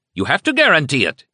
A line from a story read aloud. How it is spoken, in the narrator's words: Hitler shouted